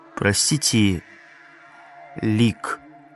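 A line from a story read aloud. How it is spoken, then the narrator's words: Very quiet, close to ear. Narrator (Russian): сказал Эгин очень тихо, наклонившись к самому ее уху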